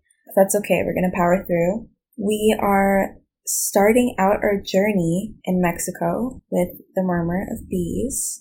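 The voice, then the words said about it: Slightly raspy voice. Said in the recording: “my throat is not happy about it. So I'm a little raspy.”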